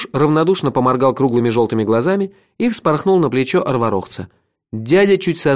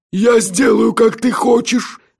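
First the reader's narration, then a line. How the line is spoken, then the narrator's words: Rapturous breathless exhale. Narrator (Russian): восторженно выдохнул Нальтик Аймирик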